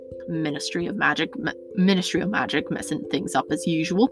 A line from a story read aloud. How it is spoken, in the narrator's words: Hagrid muttered